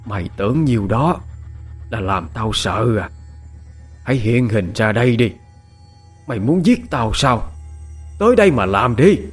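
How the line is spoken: Fierce, harsh voice. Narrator (Vietnamese): mụ gằn giọng hung tợn

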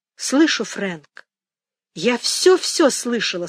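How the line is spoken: Plain. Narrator (Russian): сказала Мэгги

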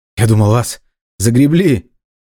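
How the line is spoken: Exclaimed. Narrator (Russian): воскликнул Иван

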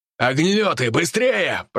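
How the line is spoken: Commander shouting. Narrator (Russian): прокричал командир

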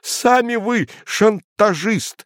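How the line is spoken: Agitated outburst. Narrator (Russian): выкрикнул цензор, снова покрываясь пятнами

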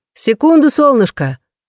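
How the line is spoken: Shouted reply. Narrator (Russian): крикнула Рэйчел в ответ

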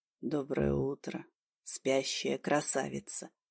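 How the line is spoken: Quiet, smiling. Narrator (Russian): тихо произнес он, улыбаясь

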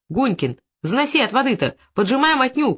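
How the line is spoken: Shouting. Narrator (Russian): кричал и суетился Стенин

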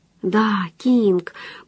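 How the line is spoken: Whispered mentally. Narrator (Russian): прошептала она мысленно

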